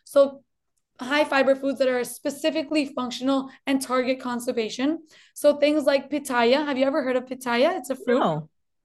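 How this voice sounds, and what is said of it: Slight Colombian Spanish accent. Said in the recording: “I'm originally from Colombia, actually. I was born in Colombia. That's why maybe you'll hear a little twinge of an accent.”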